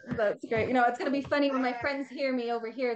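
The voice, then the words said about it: Non-American accent. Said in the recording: “I love that you've still got your accent though”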